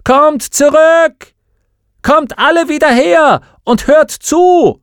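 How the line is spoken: Loud shout. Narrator (German): Will rief laut

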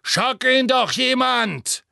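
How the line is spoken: Bellowing while struggling. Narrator (German): brüllte und kämpfte so heftig

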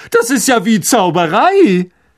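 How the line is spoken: Called out. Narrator (German): rief er

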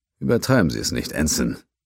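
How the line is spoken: Grunting, smiling. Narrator (German): er sagte den Satz mit einem Grunzen und einem Lächeln

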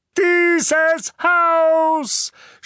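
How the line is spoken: Shouting. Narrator (German): schrie Onkel Vernon

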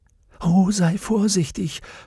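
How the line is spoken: Whispered. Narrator (German): flüsterte Salmakia

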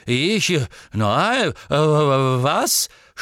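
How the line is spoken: Stuttering. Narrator (German): stotterte man Dankes

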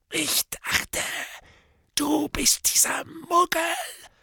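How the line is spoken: Whispered. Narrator (German): flüsterte Morfin

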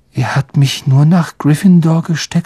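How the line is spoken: Dejected voice. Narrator (German): sagte Harry mit gedrückter Stimme

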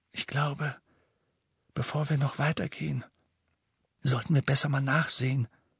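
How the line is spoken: Whisper. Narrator (German): flüsterte Hermine

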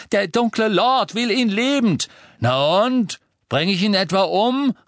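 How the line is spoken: Called out. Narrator (German): rief Crabbe

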